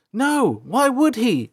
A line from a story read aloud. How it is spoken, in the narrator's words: April shouted back